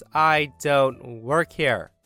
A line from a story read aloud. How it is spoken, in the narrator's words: said in a firm voice